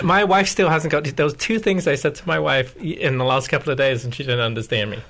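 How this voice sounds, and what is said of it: British accent. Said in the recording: “Your British accent with a couple of words. I love how you say patterns.”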